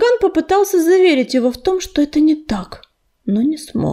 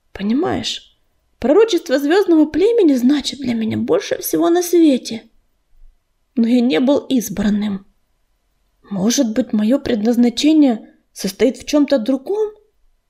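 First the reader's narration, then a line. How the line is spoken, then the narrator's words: Sighing. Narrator (Russian): Он снова вздохнул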